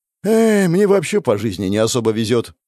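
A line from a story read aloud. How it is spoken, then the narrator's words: Sigh. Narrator (Russian): вздохнул он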